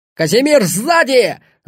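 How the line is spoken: Yelling. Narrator (Russian): заорал он

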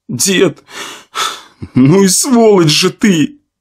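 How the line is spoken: Sobbing young man. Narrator (Russian): разрыдался парень

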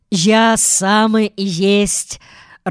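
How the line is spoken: Joyful shout. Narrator (Russian): радостно крикнул Михаил Михайлович

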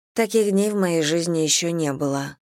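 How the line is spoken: Sigh. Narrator (Russian): вздохнула она

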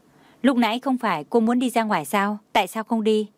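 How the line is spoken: Cold question. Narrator (Vietnamese): Tưởng Thiên Lỗi lạnh lùng hỏi

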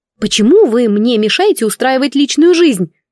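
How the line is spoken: Indignant exclamation. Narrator (Russian): восклицаю возмущенно

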